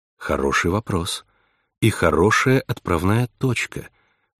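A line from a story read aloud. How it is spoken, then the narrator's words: Soft, supportive. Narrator (Russian): мягко поддержала она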